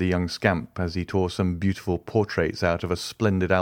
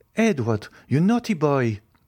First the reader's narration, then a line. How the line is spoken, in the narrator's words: exclaimed Madame de Villefort